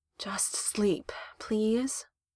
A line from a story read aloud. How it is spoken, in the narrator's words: Ramonda sighed